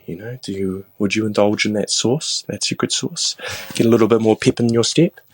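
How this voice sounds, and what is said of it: New Zealand accent. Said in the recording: “that was not an Australian accent. That's a Kiwi... from New Zealand.”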